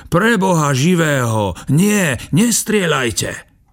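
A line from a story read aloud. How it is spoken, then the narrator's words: Panicked shout. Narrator (Slovak): Box skríkol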